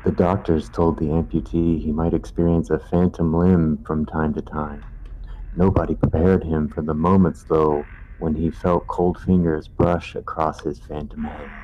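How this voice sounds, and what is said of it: Spooky storytelling voice. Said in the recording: “try my best scary voice”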